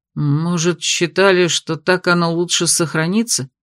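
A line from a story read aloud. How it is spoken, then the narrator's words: Uncertain. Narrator (Russian): неуверенно произнес кто-то из магов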